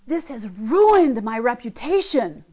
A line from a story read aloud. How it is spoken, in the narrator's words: yelling to God